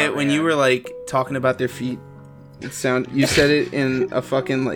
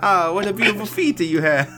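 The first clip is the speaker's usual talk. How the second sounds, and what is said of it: Put-on Italian accent. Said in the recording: “a fucking like a Italian accent”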